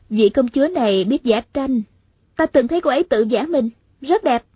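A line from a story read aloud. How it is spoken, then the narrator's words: Smiling reply. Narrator (Vietnamese): Hạ Thiết Thủ mỉm cười đáp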